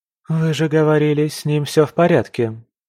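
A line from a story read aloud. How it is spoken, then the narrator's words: Heavy sigh, old man. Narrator (Russian): Старик тяжело вздохнул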